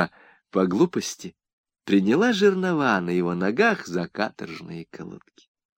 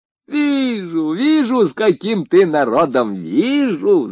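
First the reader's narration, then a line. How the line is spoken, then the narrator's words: Woman shouting. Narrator (Russian): закричала женщина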